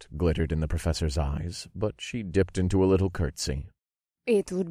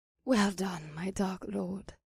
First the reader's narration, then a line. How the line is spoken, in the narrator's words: she whispered into my ear